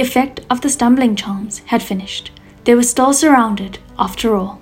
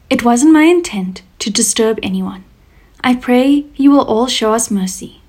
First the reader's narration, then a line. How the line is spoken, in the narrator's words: Shirlian said warmly